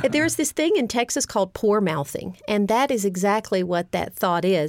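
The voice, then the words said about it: Slight Texas accent. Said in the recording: “You may hear a little bit of a Texas accent.”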